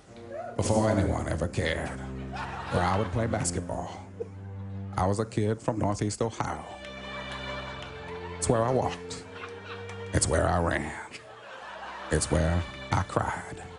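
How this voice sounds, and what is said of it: Morgan Freeman impression. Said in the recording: “he's a great impressionist, a great comedian, Frank Caliendo. He does an impression of you ... he did an impression of you today reading LeBron James' letter”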